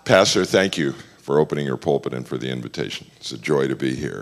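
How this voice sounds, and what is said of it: Sick, deep radio-like voice. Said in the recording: “Forgive my voice. I've been fighting something ... my friends tell me I have a good radio voice now”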